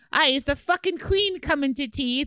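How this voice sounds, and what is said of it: Put-on Irish accent, possibly bad. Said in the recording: “Is that a bad Irish accent?”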